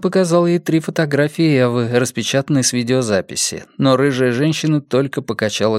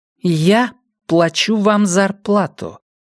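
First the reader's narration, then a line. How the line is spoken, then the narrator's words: Slow, deliberate. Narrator (Russian): медленно проговорила она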